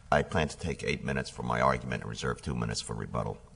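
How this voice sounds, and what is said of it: Hoarse, congested voice. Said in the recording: “apologize for my voice today. I'm suffering from a terrible cold”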